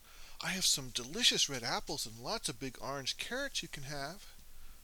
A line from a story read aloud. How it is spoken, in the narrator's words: the girl blurted out